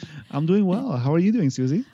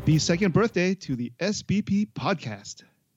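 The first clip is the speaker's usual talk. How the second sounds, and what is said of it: Professional announcer-style delivery. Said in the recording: “You sound like a professional announcer”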